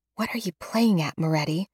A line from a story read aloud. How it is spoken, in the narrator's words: I hiss between my teeth